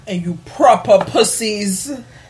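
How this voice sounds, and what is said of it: Put-on British accent. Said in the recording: “she's been doing this British accent.”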